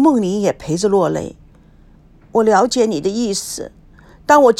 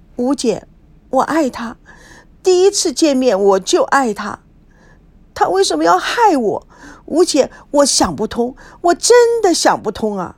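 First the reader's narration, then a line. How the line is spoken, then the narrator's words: Tearful voice. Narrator (Chinese): 孙娜哭声哭调的说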